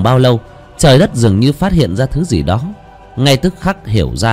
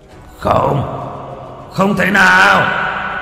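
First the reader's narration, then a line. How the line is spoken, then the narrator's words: Roaring from below. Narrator (Vietnamese): Con long quỷ ở bên dưới gầm thét lên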